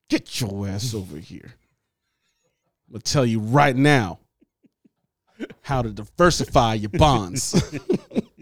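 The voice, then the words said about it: Stern dad voice. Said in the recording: “I'll even use my dad voice.”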